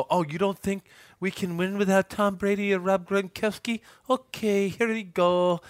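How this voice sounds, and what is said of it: Weird Dr. Evil-like accent. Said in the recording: “That's a weird accent. ... That was like a Dr. Evil.”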